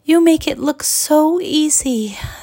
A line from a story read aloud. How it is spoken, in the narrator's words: sighed Evita